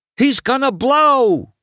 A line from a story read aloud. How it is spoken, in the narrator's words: Wingo cried